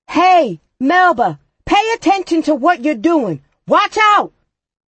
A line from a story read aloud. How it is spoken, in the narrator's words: Danny shouted